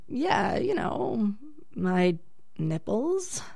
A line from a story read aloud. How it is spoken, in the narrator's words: I replied, kind of hesitantly